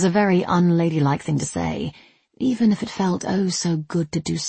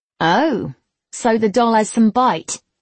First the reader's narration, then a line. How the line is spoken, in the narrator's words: Alice sneered